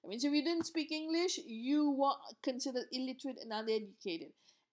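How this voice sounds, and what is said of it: Non-native English accent. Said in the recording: “my english accent was not good ... i'm only a second generation english speaker and i think you can realize from my accent”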